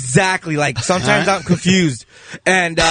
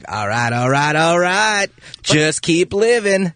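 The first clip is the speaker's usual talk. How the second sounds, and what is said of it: Imitates another person's voice, Mexican-sounding. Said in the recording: “Matthew McConaughey just came in here. ... That's not Matthew McConaughey. That's a guy with a Mexican accent doing Matthew McConaughey lines.”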